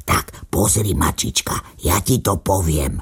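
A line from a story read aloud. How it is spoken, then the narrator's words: Little dog whispering. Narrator (Slovak): šepkal psíček mačičke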